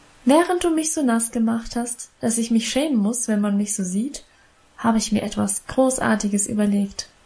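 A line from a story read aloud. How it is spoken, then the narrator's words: Plain. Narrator (German): sagte sie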